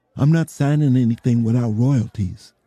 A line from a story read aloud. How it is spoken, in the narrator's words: he said